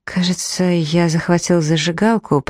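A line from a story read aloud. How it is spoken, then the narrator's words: Muttered. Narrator (Russian): пробормотал Грей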